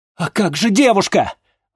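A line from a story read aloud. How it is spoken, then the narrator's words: Exclaimed. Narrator (Russian): воскликнул чернокнижец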